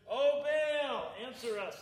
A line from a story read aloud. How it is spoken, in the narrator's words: they shouted